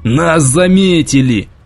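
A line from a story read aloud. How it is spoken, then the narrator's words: Shout. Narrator (Russian): закричал Николаев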